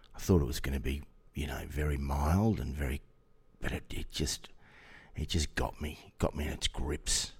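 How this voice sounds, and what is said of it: Rough, unwell-sounding voice. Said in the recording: “Please excuse my voice. I have had a bit of lurgy of late, and I'm just on the tail end of it.”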